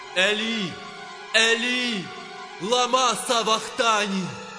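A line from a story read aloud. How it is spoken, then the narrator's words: Loud cry. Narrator (Ukrainian): скрикнув Ісус гучним голосом, кажучи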